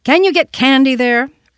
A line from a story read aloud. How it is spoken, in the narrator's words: Randolph loudly inquired